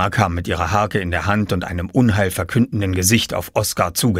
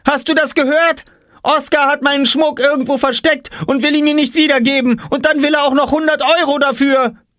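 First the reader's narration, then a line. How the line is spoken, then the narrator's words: Shouting. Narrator (German): schrie Jule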